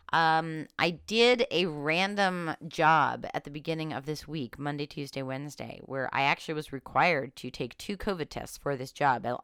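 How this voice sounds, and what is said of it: Congested, sick-sounding voice. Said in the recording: “I have a cold. No, I don't have COVID. I have a cold. ... started as a head cold and now it's moving its way down”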